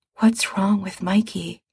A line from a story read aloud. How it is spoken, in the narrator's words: Ray whispers